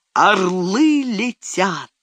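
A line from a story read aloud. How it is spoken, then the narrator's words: Thunderous shout. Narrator (Russian): вскричал громовым голосом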